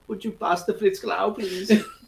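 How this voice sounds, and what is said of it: Put-on creepy German accent. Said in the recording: “I do a German accent, but it is so pervy”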